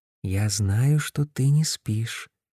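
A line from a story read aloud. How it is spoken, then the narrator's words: Whisper. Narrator (Russian): прошептал я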